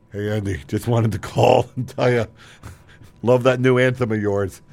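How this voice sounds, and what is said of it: Impression of Power. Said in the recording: “That's my impression of power.”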